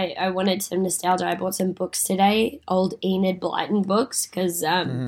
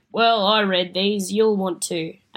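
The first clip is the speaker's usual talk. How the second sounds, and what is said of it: Put-on Mancunian accent imitating mother. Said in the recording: “That's mum. That's my great Mancunian accent that I have for mum.”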